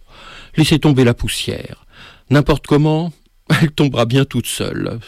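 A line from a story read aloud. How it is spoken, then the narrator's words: Fatalistic sigh. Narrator (French): soupira monsieur Mesclin, fataliste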